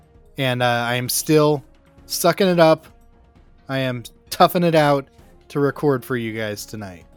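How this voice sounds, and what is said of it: Sick, under-the-weather voice. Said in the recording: “I don't know if you can hear it in my voice, but I'm under the weather.”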